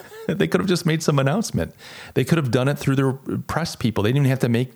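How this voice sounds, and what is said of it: Usual voice. Nothing is said of it.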